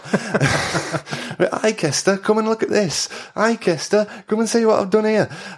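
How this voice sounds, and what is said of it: Imitated Brummie accent. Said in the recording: “She had a bit of a Brummie accent as well.”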